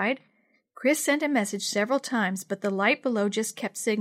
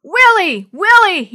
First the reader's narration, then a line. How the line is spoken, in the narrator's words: he hollered